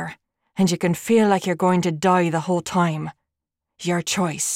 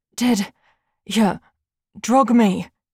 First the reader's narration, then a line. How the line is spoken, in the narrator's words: She gasped, still reeling from the near suffocation